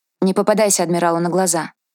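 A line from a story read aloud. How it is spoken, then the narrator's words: Cold warning. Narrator (Russian): холодно предупредила Далия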